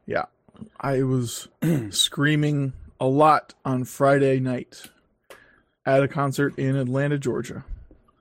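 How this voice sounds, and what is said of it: Slightly hoarse voice. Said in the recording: “Sounding a little hoarse. ... a little bit hoarse.”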